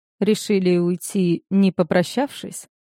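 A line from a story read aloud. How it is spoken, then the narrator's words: Calm question. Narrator (Russian): спокойно поинтересовался он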